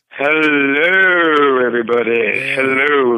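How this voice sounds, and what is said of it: Fake radio announcer voice. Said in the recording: “I'm using my fake radio voice because I'm on the phone.”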